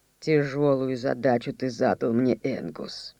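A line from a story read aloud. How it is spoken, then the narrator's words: Muffled, without anger. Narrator (Russian): Макдьюи ответил глухо и без гнева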